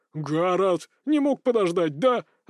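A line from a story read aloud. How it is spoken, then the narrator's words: Indignant. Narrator (Russian): возмущенно наехал на меня Бурхис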